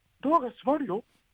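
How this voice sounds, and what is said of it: Mickey Mouse cartoon voice impression. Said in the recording (Japanese): “エレベーターの案内の声がミッキーなんで ... ミッキーマウスなん”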